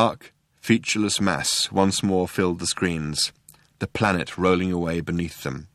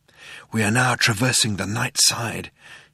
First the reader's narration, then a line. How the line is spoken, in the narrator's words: he said in a hushed voice